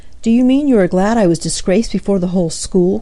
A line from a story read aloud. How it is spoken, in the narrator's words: cried Amy